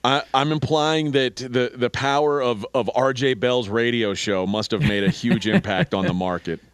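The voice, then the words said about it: Sarcastic delivery. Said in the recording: “are you being sarcastic? ... Yes, absolutely.”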